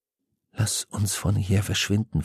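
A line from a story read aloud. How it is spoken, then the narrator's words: Whisper. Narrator (German): flüsterte Ben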